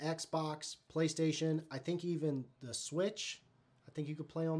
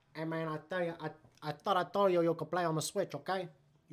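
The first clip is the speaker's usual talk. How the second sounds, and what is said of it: Put-on accent imitating a parent. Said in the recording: “You don't know I could talk like this... I listen to my dad on the phone for, like, 17 years... I got a pretty sweet, cool accent”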